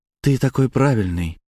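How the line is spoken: Sigh. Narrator (Russian): вздохнула

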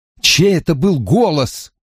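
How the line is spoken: Pleading. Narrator (Russian): взмолился я

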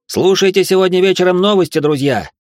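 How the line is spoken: Parting shout. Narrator (Russian): крикнул я напоследок

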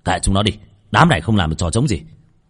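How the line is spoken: Harsh shout. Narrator (Vietnamese): Một tên quát

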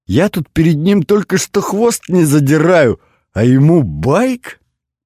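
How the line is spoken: Laughing. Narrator (Russian): рассмеялся

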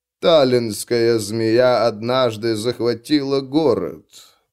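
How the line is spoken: Creaky voice. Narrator (Russian): проскрипел Лорсон

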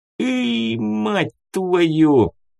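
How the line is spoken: Howling in pain. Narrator (Russian): взвыл, хватаясь за ушибленную ногу

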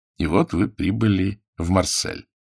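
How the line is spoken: Plain. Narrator (Russian): сказал

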